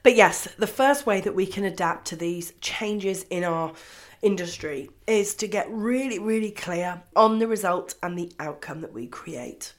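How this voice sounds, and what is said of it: Voice sounds different from illness. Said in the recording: “You sound a bit different ... it's because I'm on day 7 of the lovely COVID-19”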